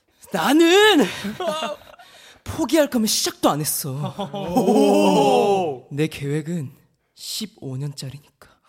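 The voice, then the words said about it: Imitates a drama character's voice. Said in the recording (Korean): “이태원 클라스 박세로의 성대모사”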